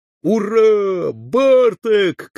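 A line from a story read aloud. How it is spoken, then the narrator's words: Soldiers shouting together. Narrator (Russian): крикнули солдаты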